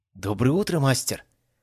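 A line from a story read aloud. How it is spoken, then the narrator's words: Joyful, smiling. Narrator (Russian): радостно улыбаясь, произнесла она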